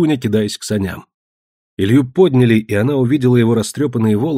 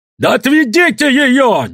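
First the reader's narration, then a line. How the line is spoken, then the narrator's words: Wild shouting. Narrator (Russian): дико кричал Родион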